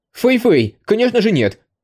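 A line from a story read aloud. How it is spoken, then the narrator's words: Hasty young man's exclamation. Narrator (Russian): поспешно воскликнул парень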